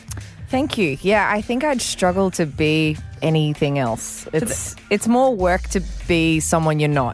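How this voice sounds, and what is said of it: Australian accent. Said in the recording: “how Australian you are”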